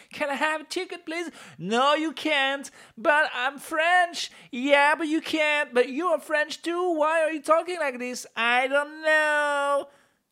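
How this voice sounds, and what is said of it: Speaks English in a strange accent. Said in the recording (French): “Je ne sais pas quel est cet accent.”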